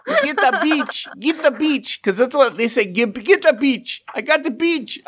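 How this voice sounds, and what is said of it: Poor Russian accent, sounds Middle Eastern. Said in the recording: “why does your Russian sound Middle Eastern? ... I can't do Russian. Okay. I'm not good at accents”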